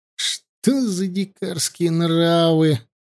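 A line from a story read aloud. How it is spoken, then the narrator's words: Sigh. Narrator (Russian): вздохнул Аршалай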